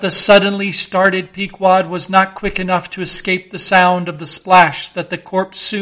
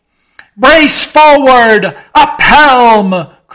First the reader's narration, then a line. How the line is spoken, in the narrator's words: cried Ahab like lightning to his men